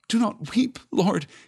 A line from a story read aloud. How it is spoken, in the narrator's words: he stammered